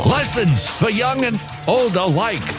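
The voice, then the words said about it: Elderly Manhattan Jewish man accent. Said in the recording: “talking like an elderly Manhattan Jewish man ... My impersonations, they're subtle ... I think that was an elderly Jewish Manhattan man who probably has a propensity to complain”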